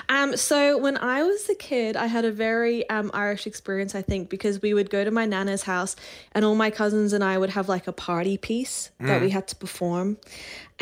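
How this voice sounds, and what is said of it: Soft Irish brogue with Australian lilt. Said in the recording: “you've a lovely tempered accent ... you can hear the soft Irish brogue in there and you can hear the little lilt of Australia. It's a beautiful accent”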